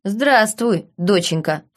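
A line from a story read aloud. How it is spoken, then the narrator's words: Snorting captain. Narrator (Russian): фыркнул капитан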